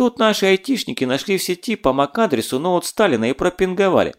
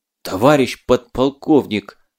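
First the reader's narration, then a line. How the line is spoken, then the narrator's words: Breathless, exhausted gasp. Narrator (Russian): с трудом выдохнул, видимо, бежал из последних сил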